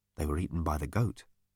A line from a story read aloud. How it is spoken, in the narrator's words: said softly